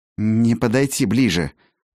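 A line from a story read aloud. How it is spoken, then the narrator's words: Strained forced words. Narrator (Russian): выдавил он наконец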